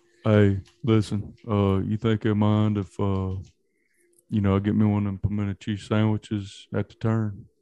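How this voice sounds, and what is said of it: Imitates another person's voice. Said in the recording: “Is that a Charles Barkley impression? ... That's Dustin Johnson, boy. ... That's terrible.”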